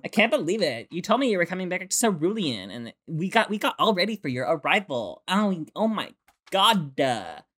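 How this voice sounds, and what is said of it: Valley Girl accent impression. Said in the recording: “They all have a Valley Girl accent. ... Pretty good. ... impressions”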